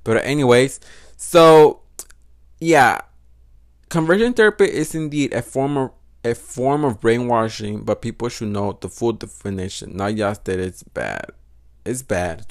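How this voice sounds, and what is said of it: Noticeable non-native English accent. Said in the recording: “Do you hear my fucking accent? ... Fucking accent, I hate that accent ... I have an accent”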